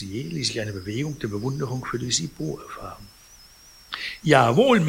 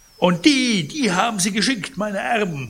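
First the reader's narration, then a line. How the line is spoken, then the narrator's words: Indignant call. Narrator (German): rief Pons empört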